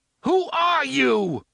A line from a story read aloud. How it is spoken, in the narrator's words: Eddie screams at him